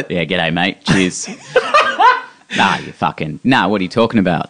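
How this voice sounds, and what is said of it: Put-on Australian accent. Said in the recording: “your Australian accent's fantastic when you put it on”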